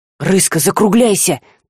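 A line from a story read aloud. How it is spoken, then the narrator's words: Anxious whisper. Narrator (Russian): тревожно шепнул Жар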